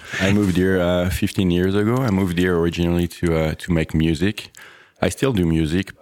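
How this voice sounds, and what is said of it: French accent. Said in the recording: “you have an accent... Yes, I'm French.”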